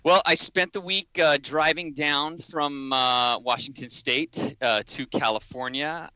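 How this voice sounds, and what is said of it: Loud, animated radio voice. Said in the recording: “I am talking loudly and animated because I'm using my radio voice”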